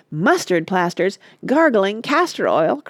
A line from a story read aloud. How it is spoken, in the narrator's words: cried Oliver